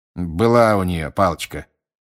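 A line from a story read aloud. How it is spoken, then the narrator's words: Grumbling. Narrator (Russian): проворчал мистер Диггери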